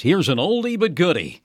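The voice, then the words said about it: Imitated radio DJ voice. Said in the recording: “in my best DJ voice,”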